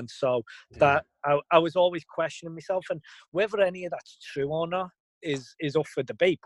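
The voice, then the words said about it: Foreign accent. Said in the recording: “I've got an accent, I'm from a different country”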